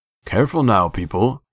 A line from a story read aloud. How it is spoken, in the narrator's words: Munda called over a shoulder, his tone rich with amusement